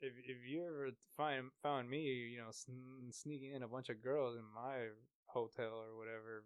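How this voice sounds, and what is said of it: Usual voice. Nothing is said of it.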